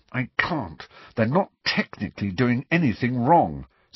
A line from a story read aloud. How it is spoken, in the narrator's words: said Hermione through gritted teeth